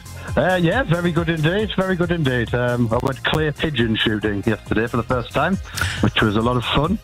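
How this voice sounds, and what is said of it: Northeast English accent. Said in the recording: “Confirming with your accent, this is Washington in the Northeast”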